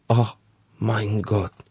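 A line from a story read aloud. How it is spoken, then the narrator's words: Shocked officer's breathless gasp. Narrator (Russian): выдохнул потрясенный офицер, услышав перевод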